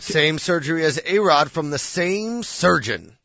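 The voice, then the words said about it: Sports announcer voice. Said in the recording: “my sports announcer voice”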